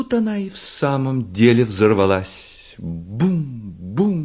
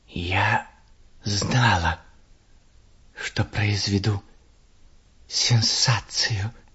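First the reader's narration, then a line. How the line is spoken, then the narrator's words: Hissing. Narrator (Russian): прошипела ракета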